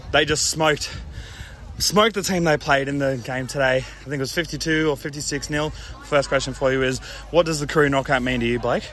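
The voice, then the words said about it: Out of breath speech. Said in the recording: “sorry for my out of breathness”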